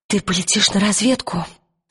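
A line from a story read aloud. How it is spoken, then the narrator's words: Whispered. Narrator (Russian): прошептала она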